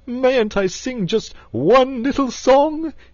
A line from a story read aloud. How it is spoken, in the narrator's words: he pleaded piteously